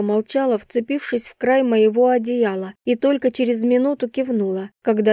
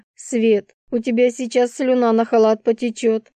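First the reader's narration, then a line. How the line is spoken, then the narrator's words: Laughing. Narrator (Russian): засмеялась я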